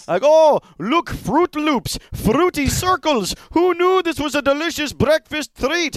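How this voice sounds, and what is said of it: Attempted Greek accent sounding Indian. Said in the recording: “That is an Indian. ... accent. ... that's an Indian accent. ... I'm giving an effort. I'm not saying it's perfect ... me trying to do Greek or European evolved into Indian.”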